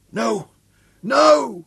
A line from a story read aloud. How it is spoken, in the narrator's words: The man's voice rose, hysterical shriek